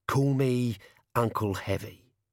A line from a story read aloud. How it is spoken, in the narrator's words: he said